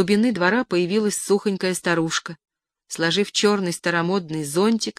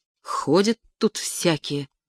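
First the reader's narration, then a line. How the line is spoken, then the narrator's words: Muttered. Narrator (Russian): пробормотала она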